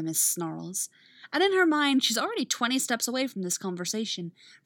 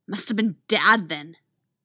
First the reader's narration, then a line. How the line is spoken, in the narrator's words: Artemis hisses venomously before she can stop herself